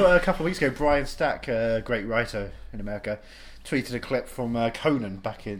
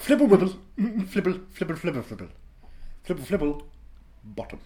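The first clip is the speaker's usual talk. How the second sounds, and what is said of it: Mr. Bean character voice impression. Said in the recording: “What is it, Mr. Bean?... That's a good impression. That's a pretty good one.”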